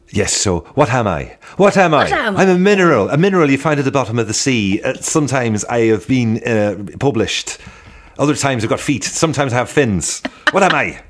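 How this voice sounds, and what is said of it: Irish accent impression of another person. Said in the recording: “Henry Kelly accent ... their sort of blueprint for the Irish accent ... any more Henry Kelly impressions”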